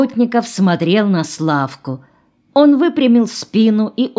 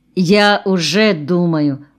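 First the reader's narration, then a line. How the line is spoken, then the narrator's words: Plain. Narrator (Russian): сказал Семен Семенович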